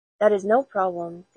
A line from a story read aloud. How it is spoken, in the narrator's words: said the undertaker